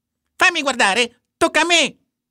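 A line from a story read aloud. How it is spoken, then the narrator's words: Shouting. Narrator (Italian): gridò Warren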